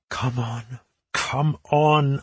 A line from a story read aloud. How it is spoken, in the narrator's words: I whispered